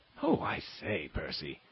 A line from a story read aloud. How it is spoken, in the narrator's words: exclaimed Lord Lambeth